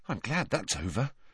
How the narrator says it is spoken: muttered Neville

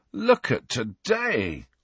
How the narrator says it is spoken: groaned Ron

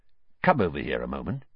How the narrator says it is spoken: Weasley quietly

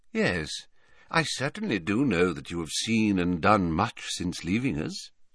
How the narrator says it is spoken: he said quietly

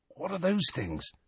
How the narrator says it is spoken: whispered Ron

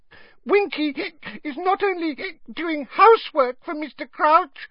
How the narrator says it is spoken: Winky squeaked indignantly, swaying worse than ever

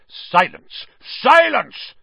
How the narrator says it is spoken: Snape roared

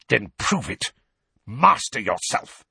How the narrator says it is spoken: spat Snape

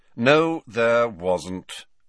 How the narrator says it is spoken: said Snape in a bored voice

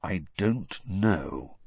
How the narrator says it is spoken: said Sirius slowly

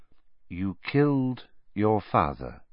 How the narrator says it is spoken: Dumbledore said, in the same soft voice

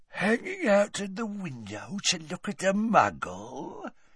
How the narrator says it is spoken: said Gaunt quietly

